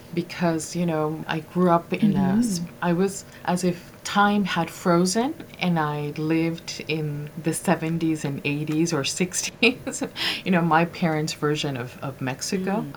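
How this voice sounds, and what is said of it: Slight accent in English. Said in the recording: “I still have a little bit of an accent when I speak English”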